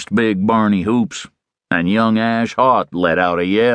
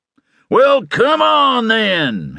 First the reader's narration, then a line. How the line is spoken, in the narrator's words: hollered